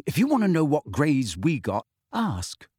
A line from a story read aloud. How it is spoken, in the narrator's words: said Ron sharply